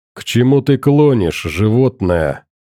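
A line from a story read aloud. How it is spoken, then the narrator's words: Growling. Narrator (Russian): рыкнул Гром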